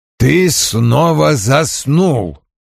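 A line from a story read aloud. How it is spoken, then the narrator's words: Menacing tone. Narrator (Russian): грозно произнес Вульф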